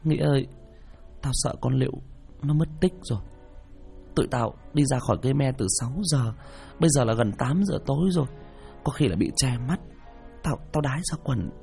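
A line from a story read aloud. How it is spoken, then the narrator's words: Tearful, whimpering. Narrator (Vietnamese): Hân mếu máo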